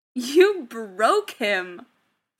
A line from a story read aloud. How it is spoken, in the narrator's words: Tony grinned, fighting back the laughter just for a second